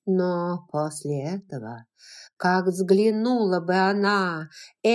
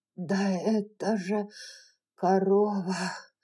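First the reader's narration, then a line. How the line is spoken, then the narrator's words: Hoarse frightened voice. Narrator (Russian): хриплым с перепугу голосом проговорила Скарлетт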